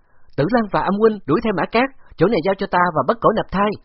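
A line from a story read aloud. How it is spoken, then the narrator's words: Loud shout. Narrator (Vietnamese): Bạc Phong Hàn hét lớn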